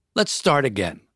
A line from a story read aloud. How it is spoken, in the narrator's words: the inspector said